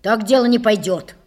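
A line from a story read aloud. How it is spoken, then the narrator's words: Angry declaration. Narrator (Russian): сердито заявил он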